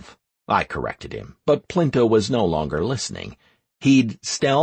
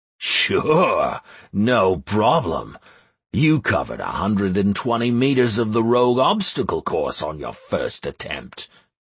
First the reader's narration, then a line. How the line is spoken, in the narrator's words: chuckled Plinto